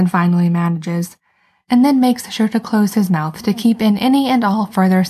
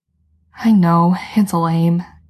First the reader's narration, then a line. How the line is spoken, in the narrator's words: Jensen says, sighing patiently